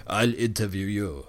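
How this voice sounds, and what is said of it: Bad Arnold Schwarzenegger impression. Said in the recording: “Arnold Schwartz or something... terrible accent there”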